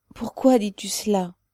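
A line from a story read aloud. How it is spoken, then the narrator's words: Mother, anguished voice. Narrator (French): demanda la mère d'une voix angoissée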